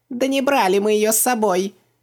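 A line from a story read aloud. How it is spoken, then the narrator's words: Yelling. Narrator (Russian): заорал Хубаксис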